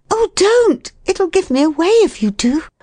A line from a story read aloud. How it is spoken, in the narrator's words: cried